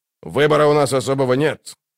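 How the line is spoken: Grumbling. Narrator (Russian): проворчал Дуджик

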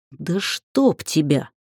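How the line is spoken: Cursed through gritted teeth. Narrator (Russian): выругалась я сквозь зубы

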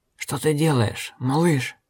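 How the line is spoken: Hoarse, teeth bared. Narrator (Russian): хрипел, щерясь

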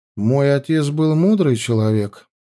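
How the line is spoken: Calm. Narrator (Russian): спокойно ответил Станимир

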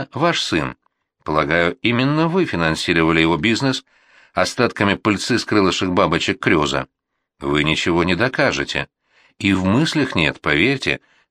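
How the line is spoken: Calm reply. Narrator (Russian): спокойно ответил Кирилл

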